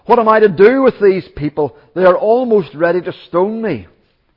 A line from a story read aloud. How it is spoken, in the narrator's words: Moses cried to the Lord